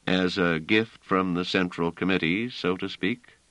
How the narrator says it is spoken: said Trevise dryly

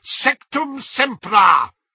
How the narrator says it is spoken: shouted Snape

